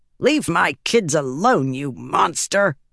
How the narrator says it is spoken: growled

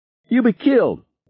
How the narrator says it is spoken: Harry shouted

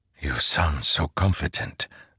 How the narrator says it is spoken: Zeth whispered

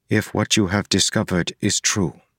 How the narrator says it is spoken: Harmony said

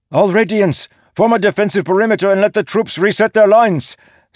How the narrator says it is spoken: Sigsel shouted

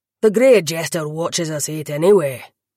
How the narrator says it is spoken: the other lad growled

